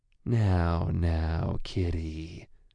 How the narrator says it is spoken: he said, voice a gravelly purr

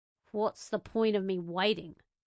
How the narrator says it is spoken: Tuatu asked, his voice dry

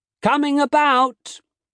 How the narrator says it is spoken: Hal called out

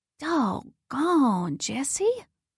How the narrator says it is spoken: Merritt gasped and said

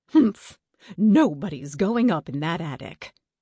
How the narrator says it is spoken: said firmly

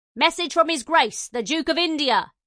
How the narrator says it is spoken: he barked

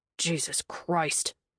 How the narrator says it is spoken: Cashman muttered

